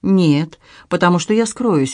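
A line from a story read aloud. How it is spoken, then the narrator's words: Cheerful. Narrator (Russian): весело отвечал Анри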